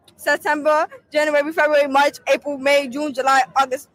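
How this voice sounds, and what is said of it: Thick mumbled-sounding accent. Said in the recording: “Is that accent for real? Does she have a box of fucking marbles in her mouth?”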